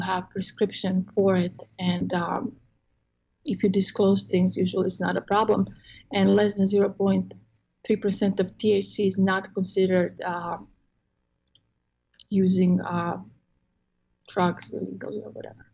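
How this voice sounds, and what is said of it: Croatian accent. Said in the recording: “I'm from Croatia originally, so I have an accent.”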